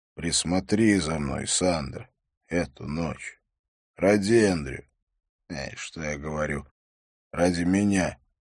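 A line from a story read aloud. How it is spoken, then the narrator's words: Whisper. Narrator (Russian): прошептал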